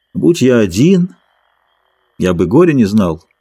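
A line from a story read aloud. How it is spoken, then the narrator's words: Lifeless voice. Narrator (Russian): Он ответил безжизненным голосом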